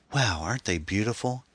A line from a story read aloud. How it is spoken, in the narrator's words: Anne breathed